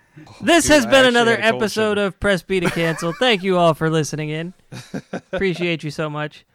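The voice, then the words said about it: Loud, yelling radio voice. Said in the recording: “Why are you yelling? ... I turned on my radio voice.”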